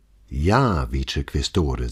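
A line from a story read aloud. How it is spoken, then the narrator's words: Calm and composed. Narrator (German): sagte Brunetti, der sich zu seiner eigenen Überraschung gar nicht anstrengen musste, um ruhig und gelassen zu sprechen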